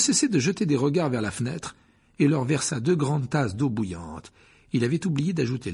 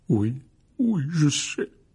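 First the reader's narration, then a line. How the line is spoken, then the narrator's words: Broken voice. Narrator (French): dit Hagrid d'une voix brisée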